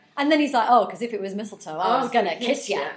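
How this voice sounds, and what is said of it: Imitates a creepy man's voice. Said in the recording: “That's quite a good impression.”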